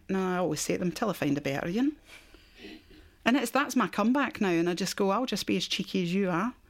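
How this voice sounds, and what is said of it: Scottish accent. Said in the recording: “that's an accent ... where's your accent from? ... how long are you going to hold on to that accent? ... I've held on to Scotland”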